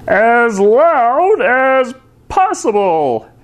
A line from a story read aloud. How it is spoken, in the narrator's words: bellowed the doctor